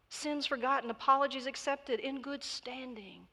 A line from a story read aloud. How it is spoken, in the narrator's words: pleaded the nun